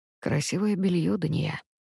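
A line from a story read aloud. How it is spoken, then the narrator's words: Quiet. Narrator (Russian): говорит тихо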